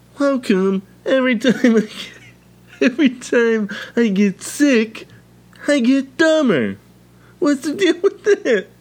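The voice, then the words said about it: Bad imitation of another person's voice. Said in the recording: “Jerry Seinfeld? ... Just the worst Seinfeld impression ever. ... Just so bad.”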